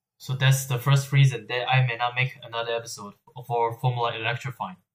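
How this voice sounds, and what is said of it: Tired-sounding voice. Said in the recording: “As you can probably tell from my voice, I'm actually really tired right now.”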